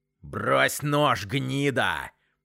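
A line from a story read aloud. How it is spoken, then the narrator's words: Furious hiss. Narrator (Russian): прошипел Вовка в ярости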